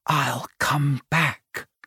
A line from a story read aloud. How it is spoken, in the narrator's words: whispered